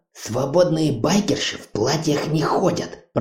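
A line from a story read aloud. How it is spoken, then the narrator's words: Hissed, young woman. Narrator (Russian): прошипела девушка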